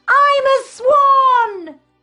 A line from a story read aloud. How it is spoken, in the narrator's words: He shouts